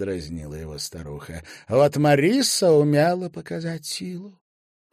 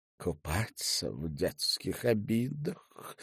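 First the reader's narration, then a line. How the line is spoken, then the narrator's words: Tearful mumble. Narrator (Russian): пробормотала она, промокая глаза и нос кружевным платочком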